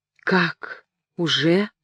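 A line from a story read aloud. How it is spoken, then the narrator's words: Frightened whisper. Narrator (Russian): прошептал Жюльен, в испуге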